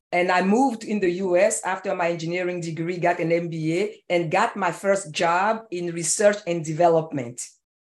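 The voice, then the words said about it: Ivory Coast West African accent. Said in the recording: “from the accent, you know that I was not born in Seattle, Washington. I was born in a small little tiny country called the Ivory Coast on the west coast of Africa”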